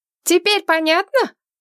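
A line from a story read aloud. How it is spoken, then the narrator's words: Distant shout. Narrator (Russian): крикнула откуда-то издалека мать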